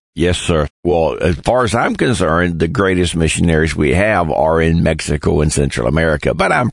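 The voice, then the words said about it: Southern American English accent. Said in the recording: “southern accent in English”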